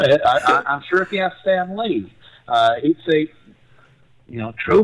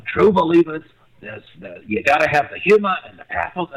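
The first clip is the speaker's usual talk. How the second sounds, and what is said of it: Bad Stan Lee impression. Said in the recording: “that's a really bad Stan Lee impersonation.”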